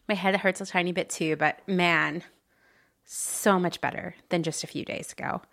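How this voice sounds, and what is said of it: Slightly hoarse voice. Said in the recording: “I know I'm a little hoarse.”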